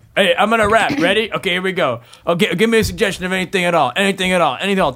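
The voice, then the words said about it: Overconfident improv rapper character voice. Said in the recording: “my impression of an improv rapper ... Tons of confidence. Unwarranted confidence. ... Way too much unwarranted confidence.”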